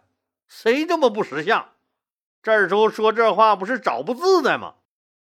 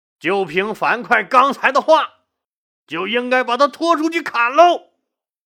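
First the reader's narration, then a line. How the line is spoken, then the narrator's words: Loud roar. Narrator (Chinese): 一个人大声吼道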